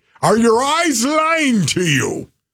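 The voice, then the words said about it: Scottish accent impression. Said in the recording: “he said it with that kind of accent... Do you have a Scottish coach?... He was literally Scottish... I picked up on his accent through your impression”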